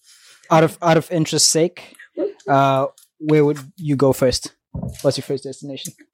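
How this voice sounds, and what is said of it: Southern African accent, Afrikaans-sounding. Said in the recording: “Are you South African? ... your accent is very, ... it's very much like Afrikaans accent”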